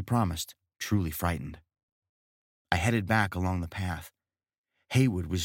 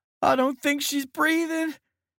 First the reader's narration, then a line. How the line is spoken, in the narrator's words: Haywood wailed